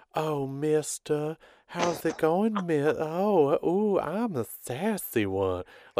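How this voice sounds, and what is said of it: Sassy put-on Southern belle accent. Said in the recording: “she's doing this, like, Southern accent ... the sassy Southern Belle”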